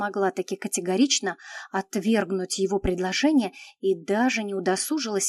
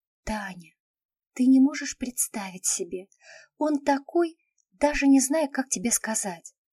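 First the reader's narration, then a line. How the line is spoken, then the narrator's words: Sighing pronouncement. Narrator (Russian): Ленка вздохнула и изрекла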